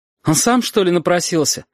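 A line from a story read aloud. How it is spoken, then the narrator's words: Snapping back. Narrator (Russian): огрызнулась Сашка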